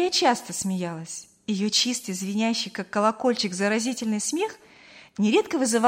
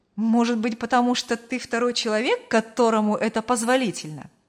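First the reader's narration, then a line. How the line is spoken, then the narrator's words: Laughing reply. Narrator (Russian): рассмеялся в ответ Артур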